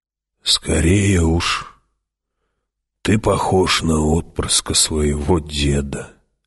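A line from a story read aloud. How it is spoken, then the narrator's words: Hoarse old man's voice. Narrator (Russian): хриплым стариковским голосом ответил Хават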